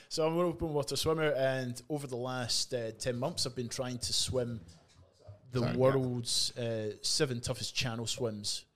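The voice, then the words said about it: Australian accent. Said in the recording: “I'm an open water swimmer from here in Perth, WA ... I can tell by the accent.”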